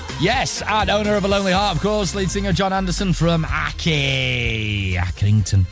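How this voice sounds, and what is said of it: Put-on Scouse accent. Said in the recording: “I don't know why I did that, that in a Scouse accent.”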